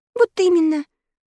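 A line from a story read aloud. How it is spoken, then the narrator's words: Sad admission. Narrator (Russian): грустно призналась Заноза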